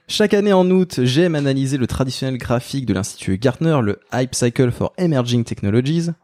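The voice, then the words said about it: Put-on English accent. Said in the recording (French): “Vous avez vu mon accent, quand même, très... Il est très beau.”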